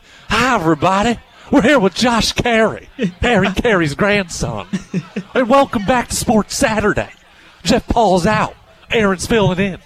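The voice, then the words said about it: Imitates another person's voice. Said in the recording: “that's my impression of Harry Carey ... I don't know that I do a great impression of Harry Carey. I think I do a generally good impression of Will Ferrell doing an impression of Harry Carey”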